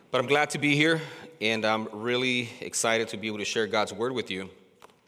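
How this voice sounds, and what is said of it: Sounds slightly unwell. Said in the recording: “I sound a little different, because I am a little bit under the weather”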